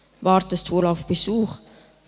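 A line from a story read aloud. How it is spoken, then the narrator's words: Rough old man's voice. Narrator (German): fragte der alte Straßenkehrer mit rauer Stimme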